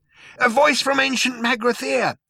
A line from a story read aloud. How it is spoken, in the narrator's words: shouted Zaphod